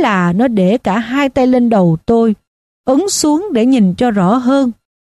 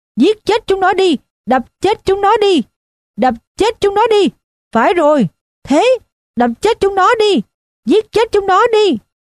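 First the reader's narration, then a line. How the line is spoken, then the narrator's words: Frenzied howling. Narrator (Vietnamese): nó gào lên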